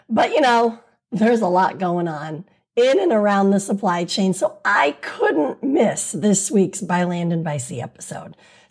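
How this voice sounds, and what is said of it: Hoarse, nearly lost voice. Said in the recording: “I lost my voice from all that zealous advocacy”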